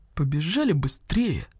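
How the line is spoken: Whispered. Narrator (Russian): шепотом сказал Мухтар

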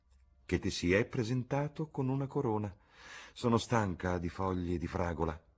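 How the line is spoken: Female sigh. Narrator (Italian): ella sospirò

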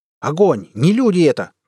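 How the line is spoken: Shout. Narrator (Russian): крикнул Вадим

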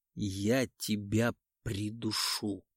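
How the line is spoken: Hissed through clenched teeth. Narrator (Russian): прошипел сквозь стиснутые зубы

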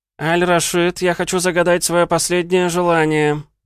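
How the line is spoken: Wailing. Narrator (Russian): Взвыл Лео

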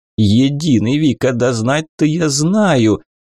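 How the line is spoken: Laughing, new mayor. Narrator (Russian): засмеялся новый мэр Вьежа

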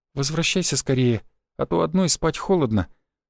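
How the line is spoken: Sleepy purring woman. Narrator (Russian): промурлыкала Катерина сквозь сон

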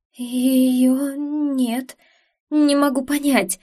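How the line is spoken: Nervous babbling. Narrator (Russian): лепетала она

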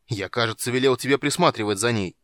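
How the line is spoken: Barked. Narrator (Russian): рявкнул вождь

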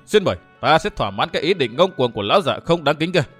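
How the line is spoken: Laughing loudly. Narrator (Vietnamese): Vu Tư Minh cười lớn nói

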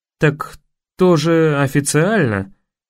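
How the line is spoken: Uncertain objection. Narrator (Russian): неуверенно возразил Кэп

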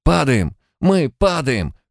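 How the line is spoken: Pilot's panicked yell. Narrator (Russian): в панике заорал пилот

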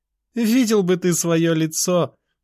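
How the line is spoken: Laughing. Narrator (Russian): продолжала она смеяться

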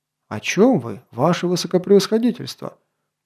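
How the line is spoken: Enthusiastic exclamation. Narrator (Russian): Воодушевленно воскликнул граф Шатре

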